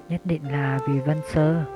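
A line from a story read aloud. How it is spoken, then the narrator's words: Soft. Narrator (Vietnamese): Họa Châu nói khẽ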